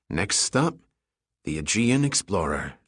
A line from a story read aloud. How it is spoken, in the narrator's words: Giordino muttered quietly